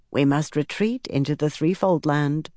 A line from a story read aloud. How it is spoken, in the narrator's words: Mora said in her soft, matronly voice